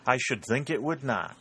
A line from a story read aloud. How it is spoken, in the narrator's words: replied Winthrop with an ironical laugh